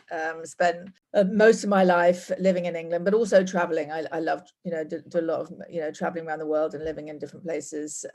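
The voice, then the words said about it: English accent. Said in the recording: “as you can probably tell from my accent, I'm not from here. I'm from England.”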